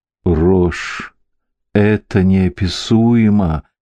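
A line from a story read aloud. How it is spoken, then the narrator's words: Moaning. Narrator (Russian): простонал Бенедикт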